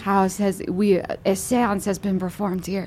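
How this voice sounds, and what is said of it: Vague mixed European accent. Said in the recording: “I like how your accent is just so uncertain. It is just a big stew of Europe.”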